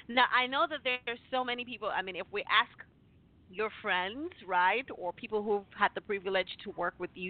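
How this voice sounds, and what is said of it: Speaks with a noticeable accent. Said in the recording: “I know I have an accent, but I love it.”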